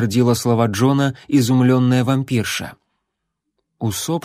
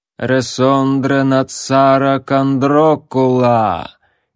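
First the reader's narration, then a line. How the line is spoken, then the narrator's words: Doubled echoing voice. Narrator (Russian): изрекла она раздваивающимся эхоподобным голосом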